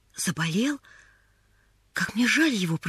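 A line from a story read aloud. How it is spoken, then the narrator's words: Whisper. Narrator (Russian): прошептала Поллианна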